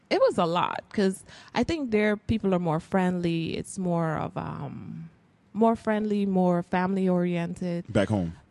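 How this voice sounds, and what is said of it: Guyanese accent. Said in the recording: “Because of the accent? ... Well, you still haven't”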